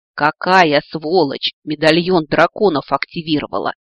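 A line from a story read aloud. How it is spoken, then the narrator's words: Angry cursing. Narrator (Russian): Злобно выругался он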